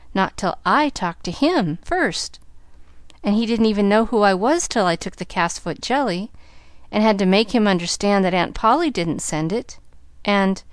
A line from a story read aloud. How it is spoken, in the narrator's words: cried Pollyanna